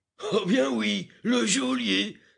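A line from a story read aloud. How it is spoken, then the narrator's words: Familiar voice exclaiming. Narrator (French): s'écria une voix connue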